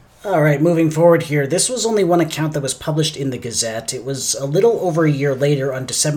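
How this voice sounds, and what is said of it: Usual voice. Nothing is said of it.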